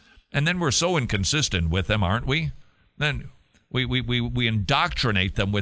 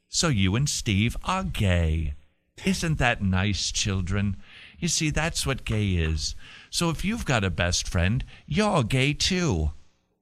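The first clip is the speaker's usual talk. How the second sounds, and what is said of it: Put-on British accent. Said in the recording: “This is my British accent again.”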